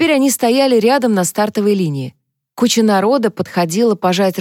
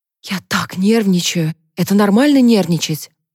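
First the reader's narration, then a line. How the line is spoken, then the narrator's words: Nervous whisper. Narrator (Russian): прошептала она, обращаясь к Альда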